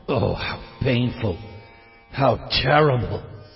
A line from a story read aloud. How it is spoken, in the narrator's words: Maharaj Dasarath could only mutter